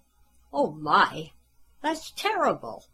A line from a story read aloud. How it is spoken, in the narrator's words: Jane exclaimed